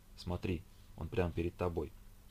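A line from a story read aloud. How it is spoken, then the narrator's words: Soft speech. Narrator (Russian): Евгений тихо произнеся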